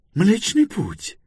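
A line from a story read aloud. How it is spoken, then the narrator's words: Joyful exclamation. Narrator (Russian): радостно воскликнул Пилород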